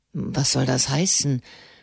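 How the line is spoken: Dismayed stammer. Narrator (German): stammelte Barbadori bestürzt

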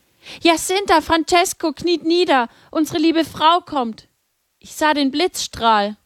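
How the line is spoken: Calling out. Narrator (German): rief

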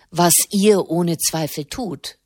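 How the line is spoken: Plain. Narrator (German): sagte Mona Giulia

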